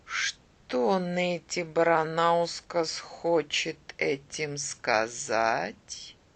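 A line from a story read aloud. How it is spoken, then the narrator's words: Slow. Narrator (Russian): Он медленно проговорил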